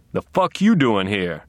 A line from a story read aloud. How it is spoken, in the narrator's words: grunted Sergeant Doakes